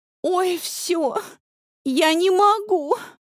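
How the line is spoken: Theatrical sobbing. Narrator (Russian): Она театрально всхлипывает

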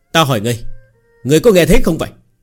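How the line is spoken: Slightly angry. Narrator (Vietnamese): Người kia hơi tức giận

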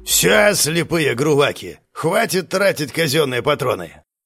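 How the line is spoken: Barked command. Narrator (Russian): рявкнул инструктор Карс

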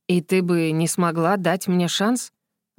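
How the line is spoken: Soft, insinuating, reluctant. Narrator (Russian): Вопрос прозвучал вкрадчиво, будто бы Крисмер и не хотел услышать на него ответ

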